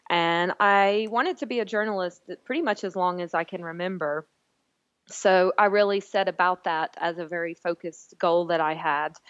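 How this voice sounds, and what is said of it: Southern American Alabama accent. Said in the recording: “as you might can tell the listeners from my accent, I'm not originally from the UK. I grew up in Alabama in the US.”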